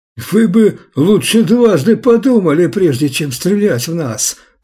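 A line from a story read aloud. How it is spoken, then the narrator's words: Shrill yell. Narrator (Russian): пронзительно провопил Гарольд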